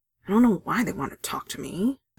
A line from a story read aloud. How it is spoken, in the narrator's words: Thiet muttered